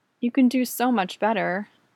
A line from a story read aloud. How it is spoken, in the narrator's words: Jesse sighs